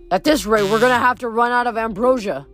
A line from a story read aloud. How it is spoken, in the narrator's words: Coach Hedge grumbled